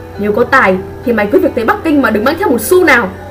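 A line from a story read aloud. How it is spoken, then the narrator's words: Angry father. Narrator (Vietnamese): câu nói giận dữ của bố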